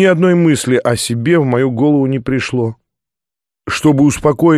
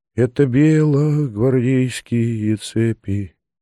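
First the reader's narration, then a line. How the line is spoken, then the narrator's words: Quiet singing. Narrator (Russian): тихим голосом запел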